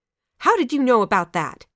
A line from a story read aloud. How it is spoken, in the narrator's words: snapped the elder sister